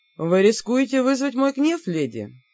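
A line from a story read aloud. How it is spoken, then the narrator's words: Insinuating king. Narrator (Russian): вкрадчиво заметил король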